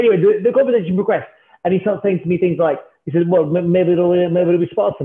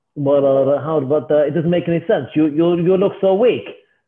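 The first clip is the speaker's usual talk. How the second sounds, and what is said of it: Imitated foreign accent, possibly Italian. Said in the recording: “accent's getting a little bit worse as we go... I think he might be maybe partly Italian. Let's not say it's my accent. Let's say it's his.”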